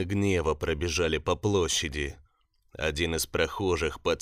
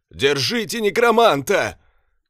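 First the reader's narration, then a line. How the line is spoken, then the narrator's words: Shout from crowd. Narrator (Russian): крикнул кто-то из толпы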